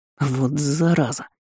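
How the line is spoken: Wary hiss. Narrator (Russian): прошипел Лунар, настороженно

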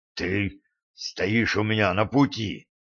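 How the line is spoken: Hoarse rasp. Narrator (Russian): прохрипел Гарри

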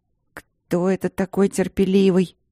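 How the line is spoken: Grumbling. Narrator (Russian): бурчала

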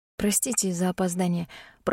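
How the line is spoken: Muttered. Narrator (Russian): пробормотала я

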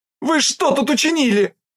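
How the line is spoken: Shrill fox squeal. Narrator (Russian): Взвизгивает лиса

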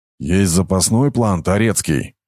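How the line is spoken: Gloomy question. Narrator (Russian): мрачно поинтересовался Айрат

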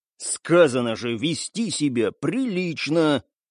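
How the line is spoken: Hissed through clenched teeth. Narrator (Russian): Сквозь стиснутые зубы зашипел Стас

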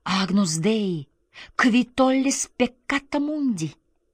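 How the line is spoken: Frightened quick whisper. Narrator (Russian): испуганная окружающей темнотой и тишиной, она быстро прошептала

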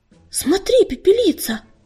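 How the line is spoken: Frightened call. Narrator (Russian): испуганно окликнула она

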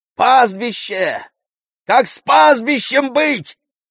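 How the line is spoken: Crowd shouting. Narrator (Russian): закричали в народе

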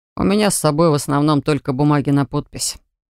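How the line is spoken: Dry, businesslike. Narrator (Russian): по-деловому сухо сообщил он

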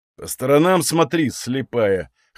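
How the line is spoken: Scoffing man. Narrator (Russian): хмыкнул мужчина

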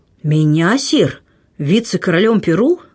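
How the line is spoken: Joyful, astonished exclamation. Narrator (Russian): воскликнул герцог от радости и удивления

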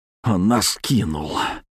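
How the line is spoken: Low, hoarse, strained voice. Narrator (Russian): Голос низкий, хриплый, севший от крика и кислотных паров

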